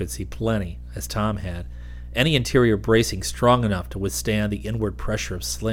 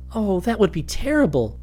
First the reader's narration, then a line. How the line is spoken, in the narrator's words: Susan exclaimed